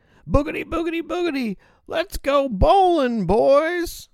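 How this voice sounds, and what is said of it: Yelling race announcer impression. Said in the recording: “some guy starts yelling ... Good impression”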